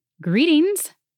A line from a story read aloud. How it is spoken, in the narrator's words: the sprite said in a high, lilting voice